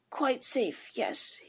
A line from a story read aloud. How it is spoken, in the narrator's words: he whispered to himself